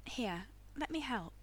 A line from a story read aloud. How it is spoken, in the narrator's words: Becky said gently